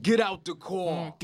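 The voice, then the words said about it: Heavy Brooklyn, Long Island accent. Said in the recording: “my sister's heavy, like Brooklyn, Long Island accent.”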